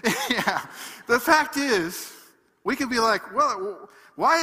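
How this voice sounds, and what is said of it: Usual voice. Nothing is said of it.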